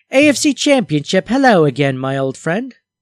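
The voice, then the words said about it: Rough put-on British accent. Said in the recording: “I should just do them in a British accent. ... Nah, that's pretty rough.”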